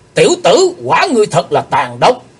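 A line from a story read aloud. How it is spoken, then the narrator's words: Fierce shout. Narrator (Vietnamese): tiếng quát, hắc y sứ giả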